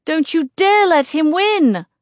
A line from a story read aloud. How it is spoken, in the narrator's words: I yell